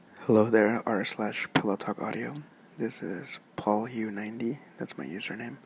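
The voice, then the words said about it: Soothing, relaxing male voice. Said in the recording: “my voice is pretty soothing and relaxing and pretty nice to hear”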